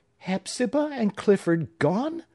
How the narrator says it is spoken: cried Phoebe

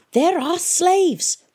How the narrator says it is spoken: shouted Rayland

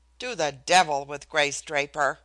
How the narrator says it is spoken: Dicky cried, and his voice was louder, carried farther than he realized

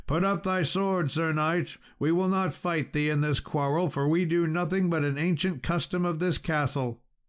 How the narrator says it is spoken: they cried out

